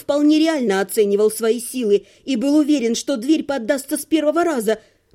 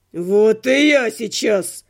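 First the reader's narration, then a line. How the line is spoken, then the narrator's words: Barking shout. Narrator (Russian): рявкнул Живка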